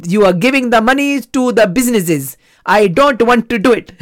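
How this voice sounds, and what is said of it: Put-on Indian accent. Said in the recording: “in his fantastic uh, Indian accent”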